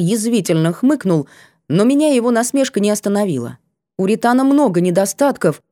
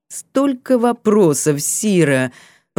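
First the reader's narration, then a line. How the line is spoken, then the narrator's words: Through gritted teeth. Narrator (Russian): процедил Рейс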